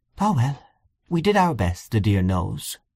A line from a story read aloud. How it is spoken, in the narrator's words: she gave a little sigh and said